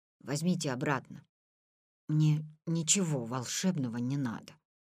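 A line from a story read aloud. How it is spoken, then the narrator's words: Barely audible whisper. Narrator (Russian): прошептал он еле слышно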